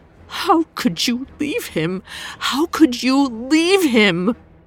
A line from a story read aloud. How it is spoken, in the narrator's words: She cried into his chest, whimpering